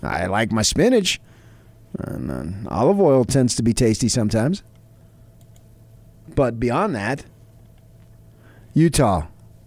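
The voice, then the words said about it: New York twang. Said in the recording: “all of a sudden you start getting the New York twang back.”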